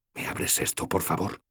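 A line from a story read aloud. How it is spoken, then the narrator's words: Quiet request. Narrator (Spanish): pedí en voz baja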